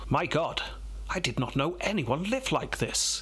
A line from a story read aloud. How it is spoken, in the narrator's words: he exclaimed